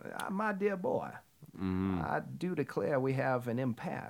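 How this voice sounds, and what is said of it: Exaggerated Southern gentleman accent. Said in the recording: “That's the best Southern accent.”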